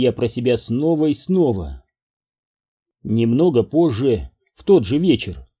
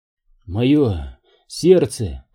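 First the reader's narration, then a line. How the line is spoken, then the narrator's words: Groaning. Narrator (Russian): простонал я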